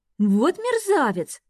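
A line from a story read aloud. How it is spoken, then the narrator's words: Angry exclamation. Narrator (Russian): в сердцах воскликнула Эви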